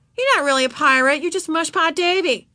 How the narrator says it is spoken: Joey yelled after him

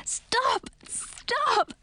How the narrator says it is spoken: I gasped, too weak to push Edric away

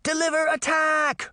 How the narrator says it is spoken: Daphne yelled, cutting off the man's speech

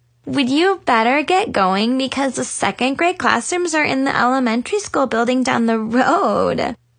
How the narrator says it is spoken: Ava laughed

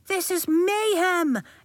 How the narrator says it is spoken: Elliot cried

